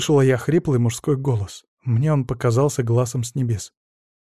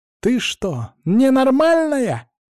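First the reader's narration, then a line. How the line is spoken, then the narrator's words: Yelling. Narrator (Russian): Марьяна не спрашивала, она на меня орала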